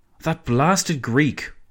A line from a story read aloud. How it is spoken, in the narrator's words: Orlando exclaimed